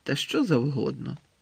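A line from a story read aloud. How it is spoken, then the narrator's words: Gloomy mutter while eating. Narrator (Ukrainian): похмуро буркнув Рон, надкушуючи грінку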